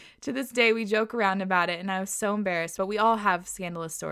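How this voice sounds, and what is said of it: Usual voice. Nothing is said of it.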